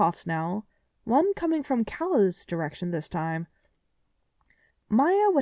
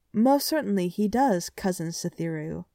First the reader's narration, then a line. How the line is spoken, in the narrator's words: Shaylin said evenly